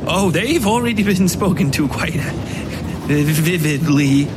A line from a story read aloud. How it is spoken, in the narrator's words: Vicky said, chuckling into the water